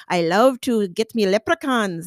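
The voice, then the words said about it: Put-on Irish brogue. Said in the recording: “if you're from Ireland, you know, come down in the Irish brogue”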